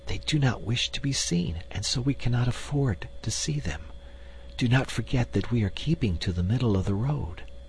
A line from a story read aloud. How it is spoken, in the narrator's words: whispered